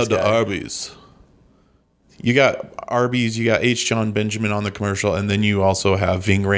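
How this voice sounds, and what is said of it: Usual voice. Nothing is said of it.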